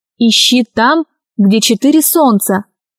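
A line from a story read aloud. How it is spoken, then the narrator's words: Plain. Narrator (Russian): сказал Аркаша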